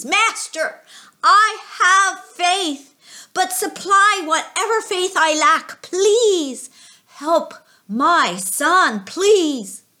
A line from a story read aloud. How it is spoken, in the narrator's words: the father cried out to Jesus